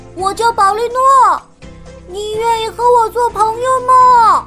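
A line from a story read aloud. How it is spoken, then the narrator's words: Calling out. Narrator (Chinese): 宝利诺对着洞口喊道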